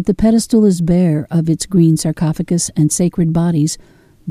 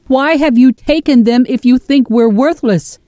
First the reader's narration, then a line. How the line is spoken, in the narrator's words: Jeresh shouts to the empty chamber